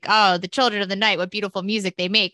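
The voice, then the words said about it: Dracula-style vampire accent. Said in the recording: “You were just doing a vampire accent.”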